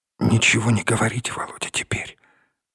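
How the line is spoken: Whisper. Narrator (Russian): прошептала Наташа

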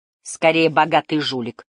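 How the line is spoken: Snorting. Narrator (Russian): фыркнул Тэп четвертый

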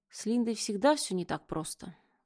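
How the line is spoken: Sigh. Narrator (Russian): вздохнула

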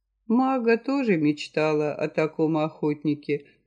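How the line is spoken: Sad young woman. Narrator (Russian): грустно проговорила девушка

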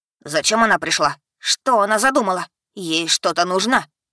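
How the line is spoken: Angry insistent voices. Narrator (Russian): Сердито напирали клоши

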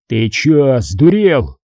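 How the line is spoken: Sudden bark. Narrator (Russian): неожиданно даже для самого себя рявкнул Серега

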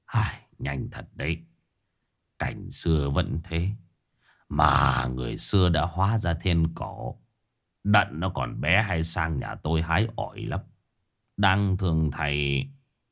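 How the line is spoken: Sighing. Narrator (Vietnamese): Ông Cập thở dài

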